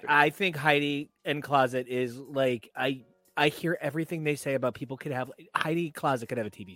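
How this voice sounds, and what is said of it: Usual voice. Nothing is said of it.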